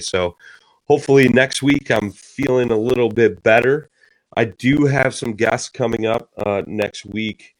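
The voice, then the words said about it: Voice strained from a cold. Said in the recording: “My voice isn't what it normally is. I'm struggling here. I've been battling a cold”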